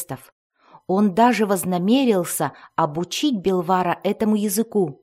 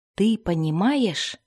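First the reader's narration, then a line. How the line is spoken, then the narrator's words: Whisper into ear. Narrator (Russian): однажды прошептал Дзирт на ухо Гвиндивар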